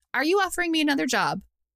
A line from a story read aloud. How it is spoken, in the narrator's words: Ral laughed